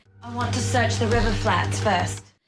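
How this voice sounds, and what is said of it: Unconvincing attempted New Zealand accent. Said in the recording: “when I'm not familiar with the accent being attempted, I'll accept almost anything. Elizabeth Moss in Top of the Lake ... a lot of New Zealanders find that accent totally unacceptable”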